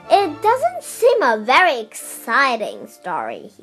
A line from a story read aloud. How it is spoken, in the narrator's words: he said impatiently